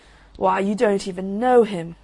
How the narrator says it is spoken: growled the Roman candle

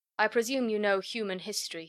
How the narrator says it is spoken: he said

